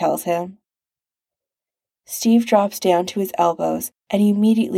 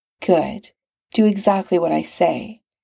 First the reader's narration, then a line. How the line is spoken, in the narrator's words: Tony murmurs